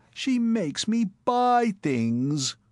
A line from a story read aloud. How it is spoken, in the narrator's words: one swain, in the third quarter of his engagement, was overheard to moan to a friend